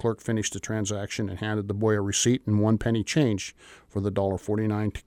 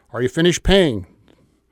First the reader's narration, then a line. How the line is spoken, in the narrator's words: yelled out again